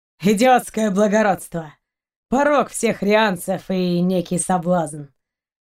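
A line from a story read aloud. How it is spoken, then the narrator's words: Sighing. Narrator (Russian): вздохнул Ваухан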